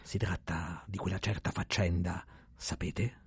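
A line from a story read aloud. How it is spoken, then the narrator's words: Low voice. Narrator (Italian): a voce bassa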